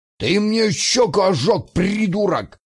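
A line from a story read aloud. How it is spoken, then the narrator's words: Pockmarked man's angry roar. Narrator (Russian): взревел рябой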